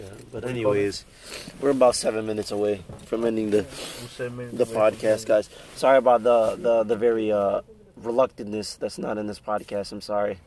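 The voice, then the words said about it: Strained, tired, fading voice. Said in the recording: “I'm losing my voice. I'm half asleep.”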